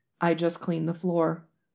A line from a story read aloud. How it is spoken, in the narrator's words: Lan Wangji says calmly